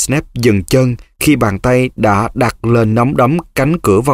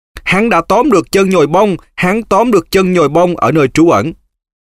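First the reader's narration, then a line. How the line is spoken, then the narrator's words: Screaming. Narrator (Vietnamese): Nó gào lên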